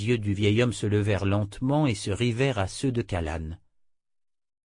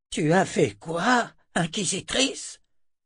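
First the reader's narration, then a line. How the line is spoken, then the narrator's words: Old man hissing. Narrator (French): siffla le vieil homme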